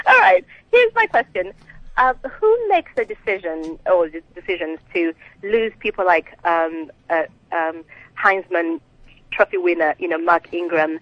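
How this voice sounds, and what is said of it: Slight Ugandan accent. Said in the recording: “you got a little accent. Where's the accent from?... From Uganda.”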